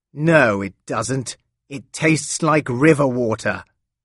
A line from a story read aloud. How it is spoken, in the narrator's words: Laurent told her angrily